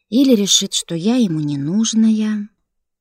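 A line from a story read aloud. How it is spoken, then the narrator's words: Sighing in unison. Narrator (Russian): Вздохнули все и разом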